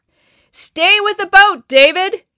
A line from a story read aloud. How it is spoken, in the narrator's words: yelled Dad